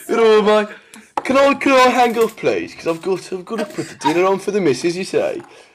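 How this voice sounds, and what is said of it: Put-on Birmingham accent. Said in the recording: “just like from Digbeth, just outside Birmingham ... you practice your accent ... these are very poor efforts”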